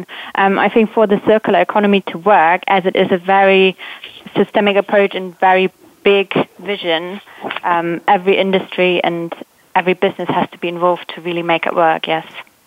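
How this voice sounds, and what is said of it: British London accent. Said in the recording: “From the UK, from London. ... I love the accent.”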